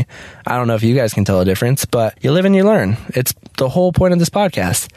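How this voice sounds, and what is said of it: Slightly raspy, dry-throated voice. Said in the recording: “my throat is dry, and it's kind of raspy. It sounds a little raspy”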